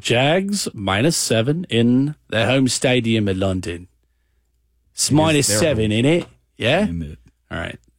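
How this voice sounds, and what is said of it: Put-on British accent. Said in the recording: “I'm addicted to doing a British accent.”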